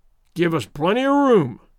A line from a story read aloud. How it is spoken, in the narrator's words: roared